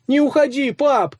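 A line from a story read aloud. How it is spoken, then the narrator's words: Several voices shouting. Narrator (Russian): закричали они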